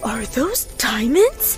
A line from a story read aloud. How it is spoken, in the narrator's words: gasped